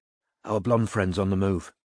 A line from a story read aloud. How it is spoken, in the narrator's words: she said quietly